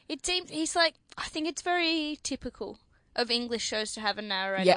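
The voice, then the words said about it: Australian accent. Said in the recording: “For starters, mine's Australian. ... With a hint of English when you raise your voice.”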